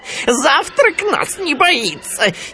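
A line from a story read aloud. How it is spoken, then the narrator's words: Hyenas giggling. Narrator (Russian): хихикали гиены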